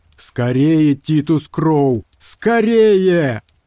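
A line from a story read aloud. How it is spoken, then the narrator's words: Shout, sticky drawling voice. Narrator (Russian): выкрикнул Карстерс, и голос его сделался липким и тягучим, словно в нем тоже копошились черви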